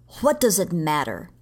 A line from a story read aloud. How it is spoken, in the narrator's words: he said harshly